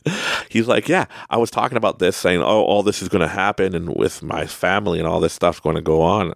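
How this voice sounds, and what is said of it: Canadian accent. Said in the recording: “you can hear my Canadian accent”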